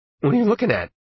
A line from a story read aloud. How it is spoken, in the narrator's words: Arnie asked a little sharply